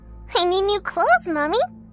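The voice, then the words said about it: Tender childlike voice. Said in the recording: “It replied in a tender voice.”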